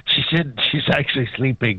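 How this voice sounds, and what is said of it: Whispering. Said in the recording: “you're whispering all of a sudden”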